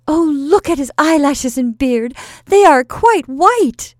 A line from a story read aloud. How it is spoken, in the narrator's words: exclaimed one of the sweet young men